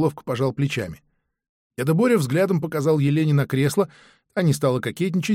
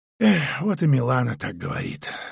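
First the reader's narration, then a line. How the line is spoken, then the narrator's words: Old man sighing. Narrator (Russian): вздохнул деда Боря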